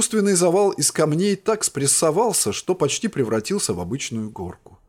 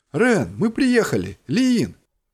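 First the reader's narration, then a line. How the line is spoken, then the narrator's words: Exclaimed. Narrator (Russian): воскликнула Анлуса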